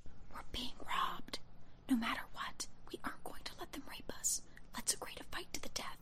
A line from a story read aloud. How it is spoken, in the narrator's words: Desiree whispered to me